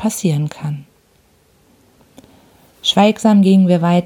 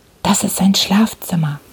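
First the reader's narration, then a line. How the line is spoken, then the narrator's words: Whispered. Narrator (German): flüsterte Holmes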